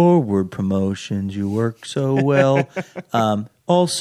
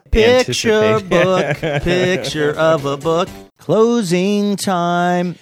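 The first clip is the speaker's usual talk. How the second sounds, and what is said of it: Imitates another person's voice. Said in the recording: “That's my Kristen Wiig impression.”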